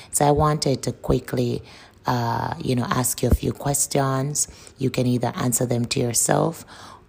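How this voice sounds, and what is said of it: Sore-throated, slightly chirpy voice. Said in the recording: “the sound of my voice. I'm having a sore throat today, so my voice is a bit chirpy”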